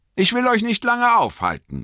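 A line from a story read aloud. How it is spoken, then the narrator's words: Called out. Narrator (German): rief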